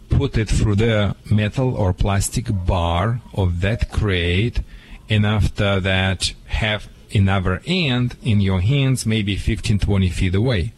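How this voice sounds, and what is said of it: Speaker's own foreign accent. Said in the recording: “hope you understand my accent ... I understand you perfectly”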